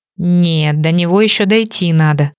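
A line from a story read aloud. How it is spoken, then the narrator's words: Grumbling female friend. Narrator (Russian): заворчала подруга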